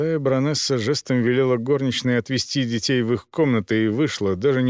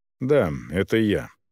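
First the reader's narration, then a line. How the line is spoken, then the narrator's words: Calm, long-awaited reply. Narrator (Russian): ответила спокойно, словно ждала этого момента всю свою жизнь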